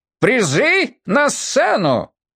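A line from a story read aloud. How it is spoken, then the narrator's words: TV-host shout. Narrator (Russian): закричал голосом телеведущего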